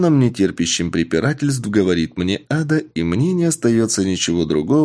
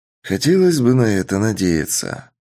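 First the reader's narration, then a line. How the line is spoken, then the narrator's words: Heavy sigh. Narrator (Russian): тяжело вздохнув, говорю я ИИ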